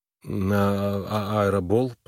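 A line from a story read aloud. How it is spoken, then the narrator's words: Mumbling. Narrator (Russian): промямлил он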